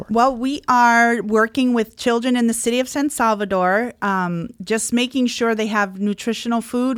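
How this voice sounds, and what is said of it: Slight Michigan Upper Peninsula accent. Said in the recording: “I could hear a little bit in your voice, in your accent a little bit”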